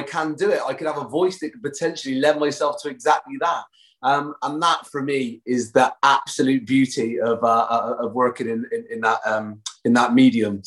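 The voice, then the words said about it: Bristol West Country English accent. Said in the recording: “southwest of England, in a place called Bristol ... we're seen as quite agricultural folk around our way. So I've got the voice of a traditional English farmer.”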